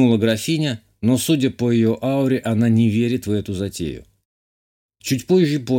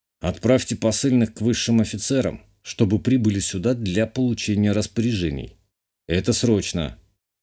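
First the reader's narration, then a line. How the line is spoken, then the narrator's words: Grim. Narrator (Russian): мрачно сказал ей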